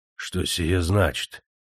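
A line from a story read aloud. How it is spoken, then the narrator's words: Crestfallen, dawning realization. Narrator (Russian): упавшим голосом спросил он, догадываясь о правде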